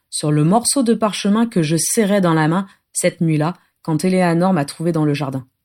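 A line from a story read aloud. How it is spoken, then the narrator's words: Toneless voice. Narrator (French): dit Adam d'une voix blanche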